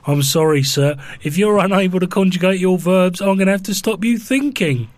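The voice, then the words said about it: Stern generic authority figure voice. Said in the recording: “What was that accent? That's one of your characters. ... That's generic authority figure. Probably a policeman.”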